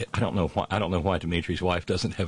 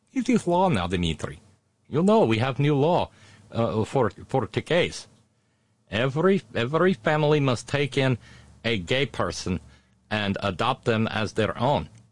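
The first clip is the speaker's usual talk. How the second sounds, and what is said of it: Exaggerated Russian accent. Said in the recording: “a horrible Russian accent”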